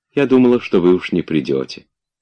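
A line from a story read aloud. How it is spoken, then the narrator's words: Tender woman. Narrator (Russian): сказала она ему ласково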